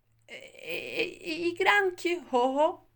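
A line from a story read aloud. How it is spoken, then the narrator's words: Moan. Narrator (Italian): gemette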